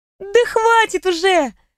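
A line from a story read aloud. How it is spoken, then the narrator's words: Laughing. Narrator (Russian): рассмеялась подруга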